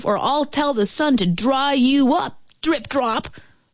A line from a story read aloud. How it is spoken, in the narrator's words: she roared